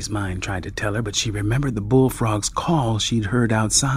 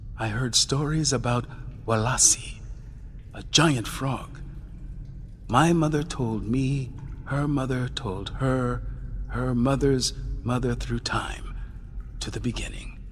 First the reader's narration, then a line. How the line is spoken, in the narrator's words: said quietly